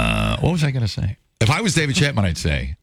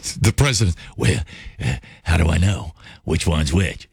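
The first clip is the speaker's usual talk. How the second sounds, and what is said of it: Imitates another person's voice. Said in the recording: “my Ronald Reagan impression ... That's good.”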